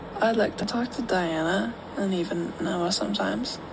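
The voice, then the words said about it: A poorly done put-on accent. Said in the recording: “This accent is bad. This is trash.”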